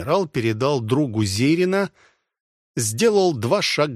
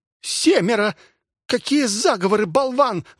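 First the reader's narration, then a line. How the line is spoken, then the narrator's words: Shrill squeal. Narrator (Russian): взвизгнула Готилла Ремейер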